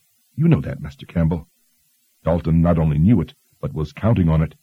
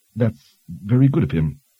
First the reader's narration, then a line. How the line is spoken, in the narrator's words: she stammered